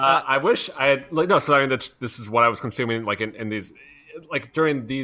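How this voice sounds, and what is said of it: Usual voice. Nothing is said of it.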